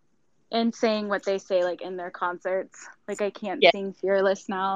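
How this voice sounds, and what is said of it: Usual voice. Nothing is said of it.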